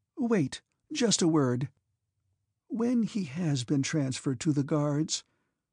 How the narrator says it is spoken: She faltered

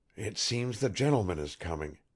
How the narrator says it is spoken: whispered Pyotr suddenly

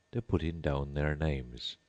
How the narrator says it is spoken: the Gryphon whispered in reply

